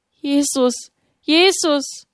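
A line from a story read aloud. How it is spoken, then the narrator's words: Cried with trembling lips. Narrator (German): Mit bebenden Lippen rief sie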